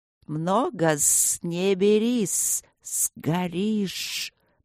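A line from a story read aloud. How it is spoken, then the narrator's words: Nervous hiss. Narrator (Russian): прошипела первая нервно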